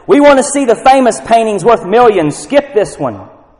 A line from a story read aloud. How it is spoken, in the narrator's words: a voice in the back of the room shouted